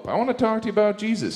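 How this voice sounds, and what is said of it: Imitates another person's voice. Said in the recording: “that was a good impression of the Pope”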